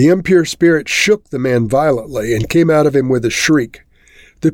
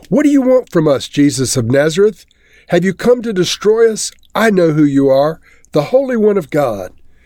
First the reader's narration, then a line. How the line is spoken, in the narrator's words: a man in their synagogue who was possessed by an impure spirit cried out